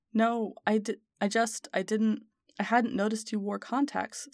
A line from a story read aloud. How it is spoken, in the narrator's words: stuttered Harry